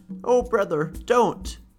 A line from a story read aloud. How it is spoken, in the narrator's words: a crocodile came near to her and threatened to eat her, and she cried